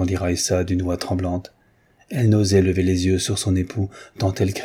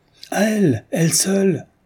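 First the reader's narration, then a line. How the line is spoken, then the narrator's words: Exclaimed. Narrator (French): s'écria Rezov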